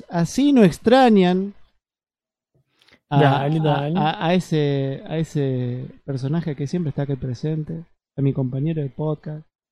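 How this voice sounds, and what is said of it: Put-on Córdoba Argentine accent. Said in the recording (Spanish): “voy a tratar de poner mi mejor acento cordobés”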